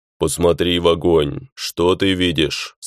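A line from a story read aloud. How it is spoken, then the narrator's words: Deep bass question. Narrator (Russian): спросил главный своим басом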